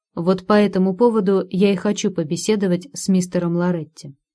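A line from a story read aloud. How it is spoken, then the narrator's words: Plain. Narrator (Russian): ответил Майкл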